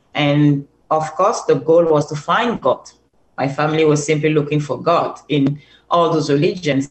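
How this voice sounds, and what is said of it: Cameroonian accent. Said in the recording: “I'm originally from Cameroon ... can hear that from my beautiful accent.”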